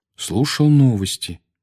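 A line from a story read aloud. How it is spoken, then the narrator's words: Peaceful calm tone. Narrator (Russian): мирным тоном ответил Гарри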